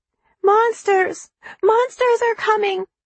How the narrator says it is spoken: Callie screamed again

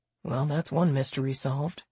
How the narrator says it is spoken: he said softly

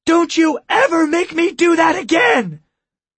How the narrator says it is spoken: After she'd caught her breath, Tessa screamed at Jaime

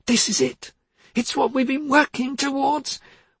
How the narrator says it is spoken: She beamed, and cried

